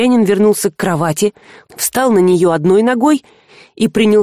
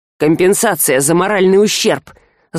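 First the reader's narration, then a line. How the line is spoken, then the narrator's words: Gloating hiss. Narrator (Russian): злорадно прошипел Альк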